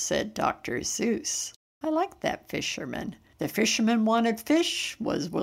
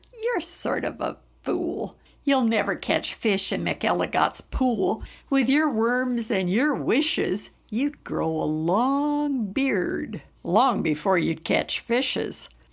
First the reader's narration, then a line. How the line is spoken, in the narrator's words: laughed the farmer